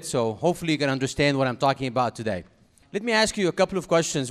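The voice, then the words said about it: Egyptian Arabic-accented English. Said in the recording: “I do have an accent, as you can recognize by now, because I'm from Cairo, Egypt, originally”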